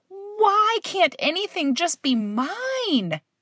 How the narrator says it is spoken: I yelled

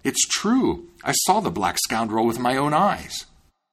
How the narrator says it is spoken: the miller exclaimed

